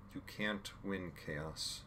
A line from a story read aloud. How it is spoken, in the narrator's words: Jim said calmly